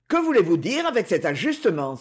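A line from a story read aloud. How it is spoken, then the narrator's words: Exclaiming. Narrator (French): s'écrie-t-il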